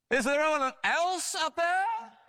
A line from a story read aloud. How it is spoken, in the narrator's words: the man shouted again